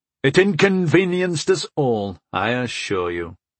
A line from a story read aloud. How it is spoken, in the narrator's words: I replied dryly